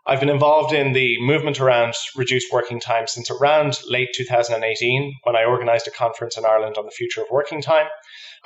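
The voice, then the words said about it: Irish accent. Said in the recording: “by the accent, I'm not a native New Yorker ... I'm from Ireland”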